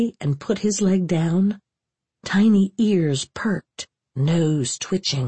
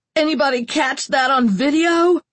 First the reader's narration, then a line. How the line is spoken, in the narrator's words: screaming at Jonesy